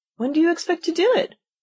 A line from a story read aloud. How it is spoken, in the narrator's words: Alice asked, feeling very much inclined to laugh